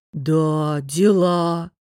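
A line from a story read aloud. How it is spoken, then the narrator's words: Drawling. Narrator (Russian): протянул Вайчур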